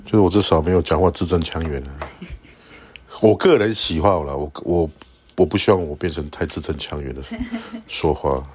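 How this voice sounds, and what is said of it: Slight accent speaking Mandarin. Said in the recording (Chinese): “就算你讲中文，还是稍微有一点口音啦”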